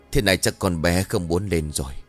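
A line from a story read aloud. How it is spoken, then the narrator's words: Sighing. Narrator (Vietnamese): Ông liền thở dài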